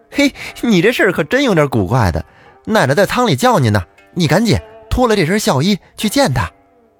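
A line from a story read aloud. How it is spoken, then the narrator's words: Group laughing. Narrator (Chinese): 众人笑着说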